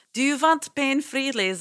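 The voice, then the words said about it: Poor put-on Russian accent. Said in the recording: “That was a terrible Russian accent.”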